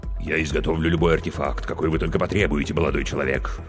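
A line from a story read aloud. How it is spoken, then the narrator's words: Deep bass voice. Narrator (Russian): пробасила трагедия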